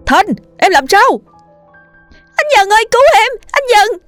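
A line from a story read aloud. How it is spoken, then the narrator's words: Shouting. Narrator (Vietnamese): Dần hét lên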